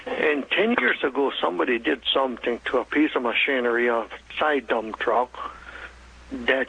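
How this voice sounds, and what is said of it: German, Russian, Ukrainian, Hutterite accent. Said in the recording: “due to my German, Russian, Ukraine, and Hutterish accent, you might have a problem understanding me.”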